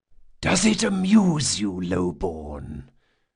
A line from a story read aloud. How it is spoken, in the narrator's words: the Don asked in a serpentine whisper